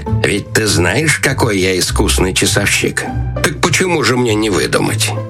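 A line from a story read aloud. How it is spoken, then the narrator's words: Quiet, after strange laugh. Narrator (Russian): засмеявшись каким-то особенно странным смехом, тихо сказал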